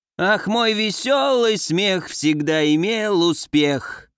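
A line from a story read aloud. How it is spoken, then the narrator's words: Hoarse bawling. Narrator (Russian): хрипло орала Урна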